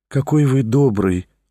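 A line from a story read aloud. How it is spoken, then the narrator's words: Gentle, affectionate. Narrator (Russian): ласково проговорила Лиза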